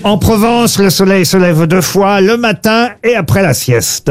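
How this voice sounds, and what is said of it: Slight put-on southern French accent. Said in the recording (French): “Vous avez utilisé un petit accent... Bah oui, puisque ça parle du midi en Provence.”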